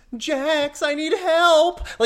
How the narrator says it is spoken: she whines

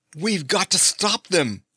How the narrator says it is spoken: he cried

